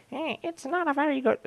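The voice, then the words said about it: Imitates another person's voice. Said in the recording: “Sorry, I've got to stop doing that voice.”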